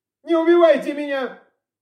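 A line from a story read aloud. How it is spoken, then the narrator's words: Wailing plea. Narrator (Russian): завопил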